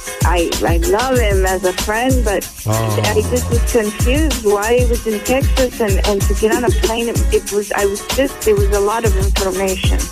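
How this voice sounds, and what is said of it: Hard-to-place accent. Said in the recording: “I don't even know what accent that is.”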